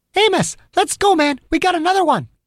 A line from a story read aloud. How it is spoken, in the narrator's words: She leaned in and shouted urgently